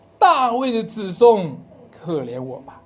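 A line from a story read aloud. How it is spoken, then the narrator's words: Pitiful pleading cry. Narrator (Chinese): 那个可怜的瞎子，喊着说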